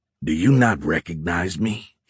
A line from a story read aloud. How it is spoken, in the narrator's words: snarled